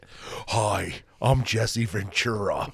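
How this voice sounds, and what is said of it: Jesse Ventura impression. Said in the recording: “My impression's not that good that people know what it is without me saying it. ... that's a classic impression.”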